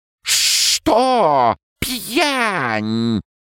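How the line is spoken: Indignant squeals. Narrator (Russian): С соседних рядов раздались возмущенные визги

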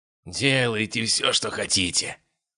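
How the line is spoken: Hoarse rasp under torture. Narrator (Russian): прохрипел убийца, когда Биркин приступил уже к третьей фазе пыточных дел

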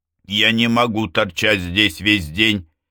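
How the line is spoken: Man shouting. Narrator (Russian): крикнул мужчина

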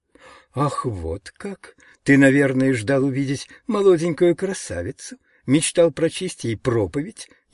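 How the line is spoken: Caustic laugh, sick woman. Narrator (Russian): едко рассмеялась больная

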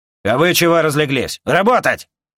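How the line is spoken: Barked. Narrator (Russian): Рявкнул на старателей Ланс

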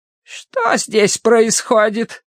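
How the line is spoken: Creaky voice. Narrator (Russian): проскрипела вошедшая в палату сестра

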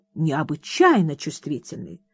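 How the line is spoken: Plain. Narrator (Russian): так говорит принц

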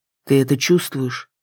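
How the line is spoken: Quiet question. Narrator (Russian): тихо спросил Кроу

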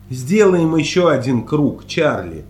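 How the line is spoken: Plain. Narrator (Russian): сказал я

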